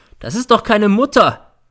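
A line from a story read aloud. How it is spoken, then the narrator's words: Shouting. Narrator (German): schreit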